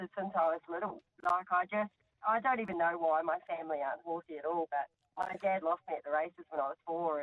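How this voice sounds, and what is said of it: Faint fading New Zealand accent. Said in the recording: “I did think maybe there was some little accent there ... it's started to wear off ... it's fading a little ... I'm from New Zealand”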